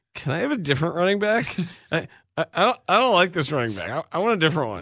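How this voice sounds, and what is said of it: Impression of Matt Nagy. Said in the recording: “my Matt Nagy impersonation”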